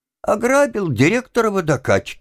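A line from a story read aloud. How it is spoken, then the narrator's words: Vexed, nearly laughing. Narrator (Russian): ответил Тим и хотел, несмотря на всю свою досаду, рассмеяться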